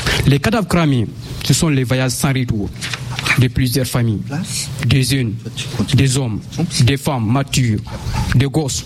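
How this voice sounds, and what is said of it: Slightly unusual accent. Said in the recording (French): “j'ai un accent un peu bizarre”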